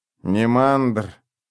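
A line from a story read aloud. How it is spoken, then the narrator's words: Flat hollow voice. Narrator (Russian): пустым голосом сказал Клещик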